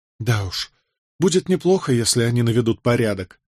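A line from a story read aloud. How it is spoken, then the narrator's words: Sighing. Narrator (Russian): вздохнула Джозефина, узнав об этом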